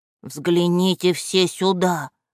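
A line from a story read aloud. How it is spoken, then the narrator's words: Whisper. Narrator (Russian): прошептал он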